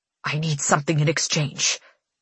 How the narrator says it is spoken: he hisses

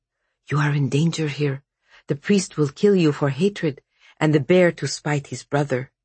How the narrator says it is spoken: He whispered

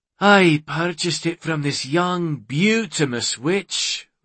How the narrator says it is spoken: Ronan sighed

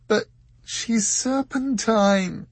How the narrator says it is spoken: wailed Dor

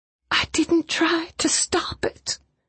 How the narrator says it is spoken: Catherine said in a whisper

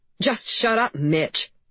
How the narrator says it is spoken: snapped Mrs

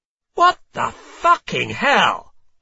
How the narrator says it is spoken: I shout loudly

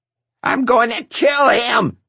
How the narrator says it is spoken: she screeched

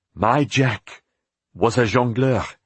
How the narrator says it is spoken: the white-haired woman said

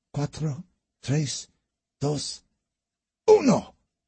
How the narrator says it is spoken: Lou spat aloud

